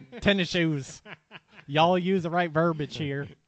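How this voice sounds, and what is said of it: Put-on redneck accent. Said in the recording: “You really got to stop doing that accent. ... R2P Redneck.”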